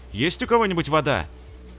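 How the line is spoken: Loud question. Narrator (Russian): громко вопросил

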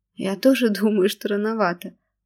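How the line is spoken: Laughing. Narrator (Russian): смеялась Машенька

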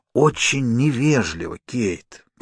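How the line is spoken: Stranger whispering. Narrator (Russian): прошептал незнакомец

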